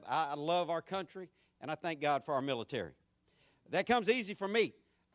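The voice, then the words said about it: Southern American country accent. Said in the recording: “my country accent, my southern accent”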